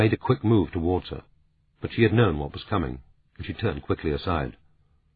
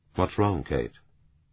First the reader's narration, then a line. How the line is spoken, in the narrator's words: He said gently